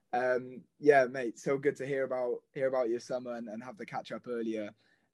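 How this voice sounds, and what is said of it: Welsh accent. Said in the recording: “the Welsh wizard himself ... I missed that Welsh accent of yours”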